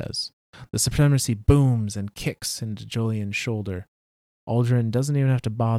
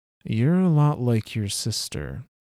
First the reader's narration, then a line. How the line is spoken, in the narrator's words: Julian sighs